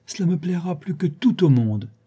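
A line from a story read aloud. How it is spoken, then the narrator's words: Exclaimed. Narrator (French): s'écria-t-elle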